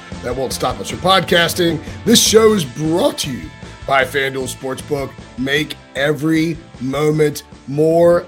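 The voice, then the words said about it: Hoarse, worn-out voice. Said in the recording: “my voice is completely shot ... as I recover from a sliming”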